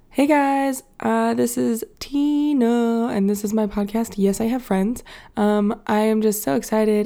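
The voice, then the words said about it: Voice sounds a little sick. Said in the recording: “I don't know if you can tell by my voice, but I'm still a little sick”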